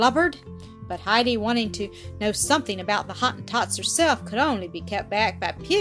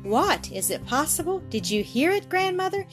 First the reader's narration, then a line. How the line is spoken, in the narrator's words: exclaimed Brigida